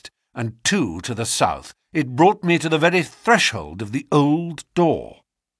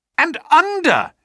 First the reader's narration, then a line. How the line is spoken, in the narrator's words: he cried